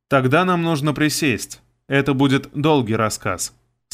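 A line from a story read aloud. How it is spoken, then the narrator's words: Plain. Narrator (Russian): сказал я всем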